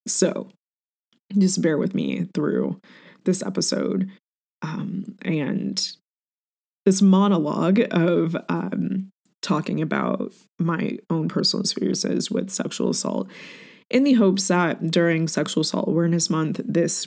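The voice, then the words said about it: Choppy, tearful voice, welling up. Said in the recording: “my voice might be a bit choppy and it might sound like I'm welling up and crying, but that's because I am.”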